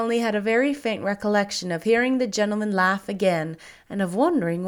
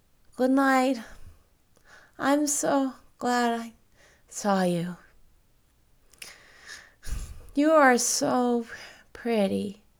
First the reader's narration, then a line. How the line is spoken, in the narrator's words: he had murmured sleepily